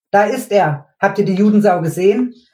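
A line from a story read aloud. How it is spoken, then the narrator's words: Sudden excited young man shouting. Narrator (German): rief plötzlich ein junger Kerl aufgeregt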